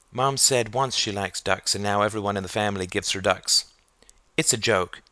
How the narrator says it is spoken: said Sarah gravely

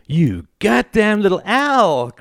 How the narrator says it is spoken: cried Greta

